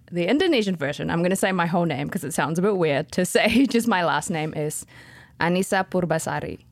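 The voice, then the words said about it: New Zealand accent. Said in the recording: “you also have a New Zealand accent”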